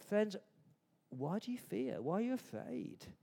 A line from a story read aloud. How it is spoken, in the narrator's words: He's gently asking them